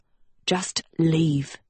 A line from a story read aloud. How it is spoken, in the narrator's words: he growled at Sophie